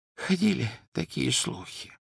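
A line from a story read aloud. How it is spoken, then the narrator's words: Whispering. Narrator (Russian): прошептал Оливандер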